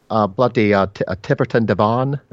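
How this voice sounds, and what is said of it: Bad put-on English accent. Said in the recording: “could you say it in an English accent as well, please? ... Holy cow. What was that? ... I think you think you're confusing English people with aliens from another planet.”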